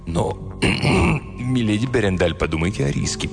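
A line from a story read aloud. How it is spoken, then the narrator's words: Mumbled. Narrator (Russian): пробормотал он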